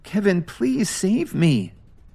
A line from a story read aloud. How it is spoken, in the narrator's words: Lily said tearfully